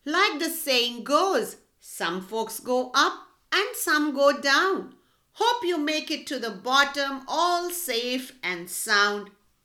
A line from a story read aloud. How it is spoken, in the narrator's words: said Br'er Rabbit, laughing